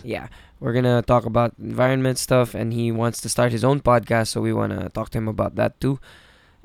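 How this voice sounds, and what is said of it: Raspy voice. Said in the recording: “my voice is kind of raspy.”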